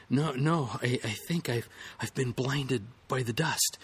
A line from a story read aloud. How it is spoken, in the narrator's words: the adventurer stammered between gasps and sneezes